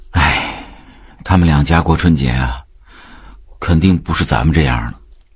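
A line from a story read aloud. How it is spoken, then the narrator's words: Sighing. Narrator (Chinese): 炳坤讲完，叹道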